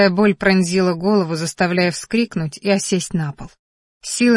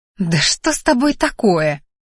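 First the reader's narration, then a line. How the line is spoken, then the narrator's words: Venomous hiss. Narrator (Russian): ядовито шипела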